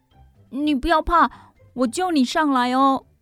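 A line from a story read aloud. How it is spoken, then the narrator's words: Shouting. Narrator (Chinese): 宝儿对小野兔喊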